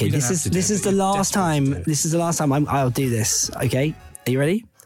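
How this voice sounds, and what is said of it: Usual voice. Nothing is said of it.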